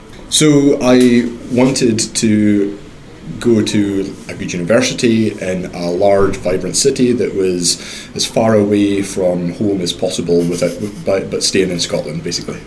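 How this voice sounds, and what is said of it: Mixed accent, slight northern Scottish twang. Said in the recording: “you've just got a concoction of a lot of places, actually ... We can still hear a slight northern twang”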